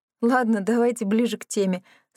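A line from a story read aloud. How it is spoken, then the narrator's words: Laughing suggestion. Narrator (Russian): сквозь смех предложила я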